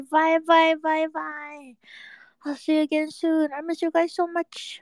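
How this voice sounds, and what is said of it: Strained, fading voice. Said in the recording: “my voice is dying. I have to rest it.”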